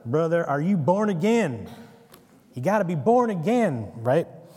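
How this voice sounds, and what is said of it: Put-on American Southern accent. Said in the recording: “I have to hear it in an American Southern accent”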